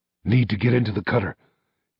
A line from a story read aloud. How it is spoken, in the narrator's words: gasped Miyamoto